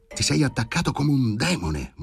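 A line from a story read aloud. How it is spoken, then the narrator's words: Murmured. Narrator (Italian): mormorava Daria Petrovna nella penombra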